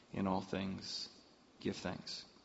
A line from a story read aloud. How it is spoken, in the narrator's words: That familiar voice with a gentle whisper into my mind said